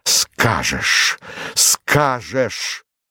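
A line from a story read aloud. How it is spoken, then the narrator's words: Strained, pained voice. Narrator (Russian): Он повторил это слово сдавленным голосом, точно оно вырвалось у него с болью и усилием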